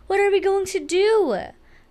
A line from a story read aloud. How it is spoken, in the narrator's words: cried Mrs